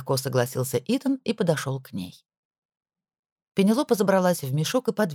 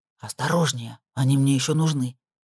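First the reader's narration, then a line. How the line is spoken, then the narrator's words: Hissing. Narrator (Russian): прошипел Итан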